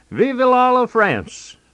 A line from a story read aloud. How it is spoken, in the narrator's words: held his nose and cried